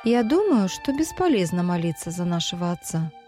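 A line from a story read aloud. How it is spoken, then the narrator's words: Plain. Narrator (Russian): сказала Гигва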